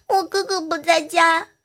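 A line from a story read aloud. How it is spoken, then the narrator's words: Crying child. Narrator (Chinese): 小朋友哭着说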